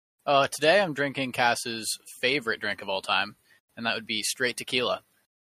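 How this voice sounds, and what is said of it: Sarcastic tone. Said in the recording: “I said that sarcastically”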